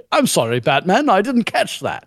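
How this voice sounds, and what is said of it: Put-on male British accent. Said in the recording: “a male British accent ... all Britishy”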